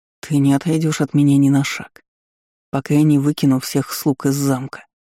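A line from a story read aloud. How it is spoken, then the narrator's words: Stubborn growl. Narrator (Russian): упрямо рыкнул Аарон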